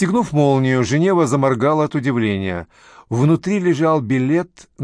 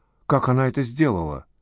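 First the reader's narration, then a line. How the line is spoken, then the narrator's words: Whisper. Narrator (Russian): прошептала Женева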